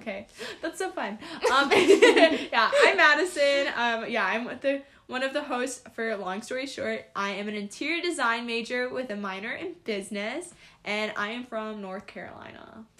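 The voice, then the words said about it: Southern twang accent. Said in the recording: “You hear the sound of their voice? ... the accent comes out sometimes, so I apologize in advance for the twang.”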